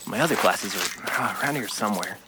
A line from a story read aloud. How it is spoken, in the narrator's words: he said under his breath